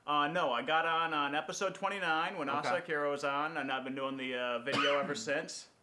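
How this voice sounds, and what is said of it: Old-time baseball announcer voice. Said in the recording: “you sound like a baseball announcer from the 1930s ... Vin Scully's retiring shortly if you're looking for a new job”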